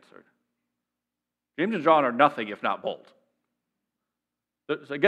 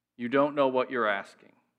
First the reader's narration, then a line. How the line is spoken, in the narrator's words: Jesus said